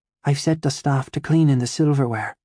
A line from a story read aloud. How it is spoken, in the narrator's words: Ma whispered